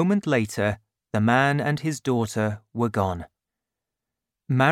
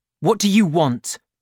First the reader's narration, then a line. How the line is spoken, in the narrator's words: he asked her angrily